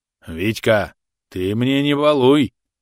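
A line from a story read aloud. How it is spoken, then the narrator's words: Stern old man's rebuke. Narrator (Russian): грозно одернул его дед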